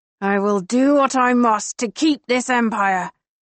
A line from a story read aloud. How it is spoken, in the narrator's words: Marcus growls